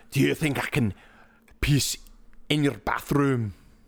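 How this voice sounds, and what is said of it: Rough put-on Scottish accent. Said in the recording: “I don't know if that's really too much of a Scottish accent, or maybe more so just some amalgamation of Willie and somebody else ... That's a lot closer than I could have ever gotten on a Scottish accent.”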